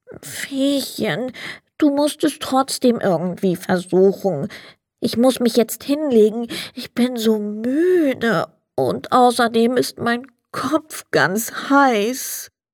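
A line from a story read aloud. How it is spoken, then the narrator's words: Sad Sandman. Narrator (German): Der Sandmann sagte traurig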